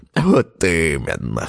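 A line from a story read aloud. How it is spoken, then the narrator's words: Old man's grunt. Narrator (Russian): хмыкнул дед Степан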